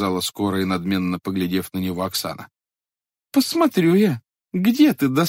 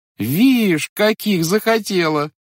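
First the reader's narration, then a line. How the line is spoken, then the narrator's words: Girls' crowd shouting, laughing. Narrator (Russian): закричала со смехом девичья толпа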